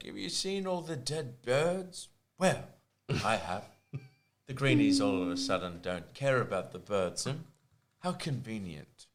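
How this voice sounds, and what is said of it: Imitates another person's voice. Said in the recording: “It's not a bad impression. ... Not great, but not bad.”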